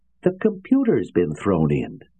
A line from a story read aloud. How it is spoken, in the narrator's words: It was Anthony's voice that cried out at last